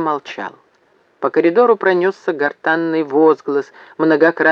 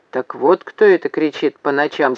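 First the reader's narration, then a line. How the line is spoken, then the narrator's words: Plain. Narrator (Russian): сказал Зев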